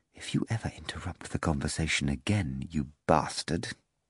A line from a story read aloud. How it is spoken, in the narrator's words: Without ceasing to smile, Margarita whispered